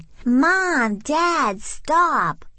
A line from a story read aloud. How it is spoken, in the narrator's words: hollered Amelia Bedelia